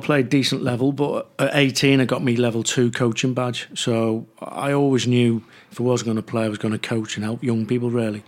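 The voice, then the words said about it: Liverpool Scouse accent. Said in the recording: “you can gauge by the accent. I'm not from South London. ... being a Scouser”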